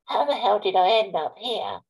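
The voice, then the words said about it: Good Joe Pasquale impression. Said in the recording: “quite a good impression.”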